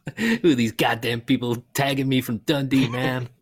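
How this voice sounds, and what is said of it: Put-on American accent. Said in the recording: “an American accent, but I can't do one, but could you do one?”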